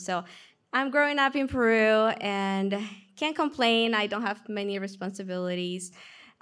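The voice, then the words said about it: Peruvian accent. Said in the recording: “I'm from Peru. That's where the accent comes from.”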